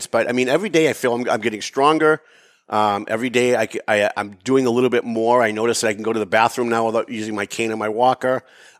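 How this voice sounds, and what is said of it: Slightly out of breath. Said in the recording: “I can tell I'm a little out of breath”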